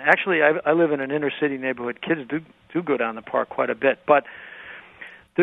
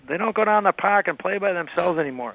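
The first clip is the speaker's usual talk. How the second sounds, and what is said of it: Put-on Boston accent. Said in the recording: “you hear the Boston accent.”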